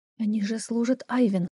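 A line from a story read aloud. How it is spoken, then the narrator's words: Whispered. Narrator (Russian): прошептала я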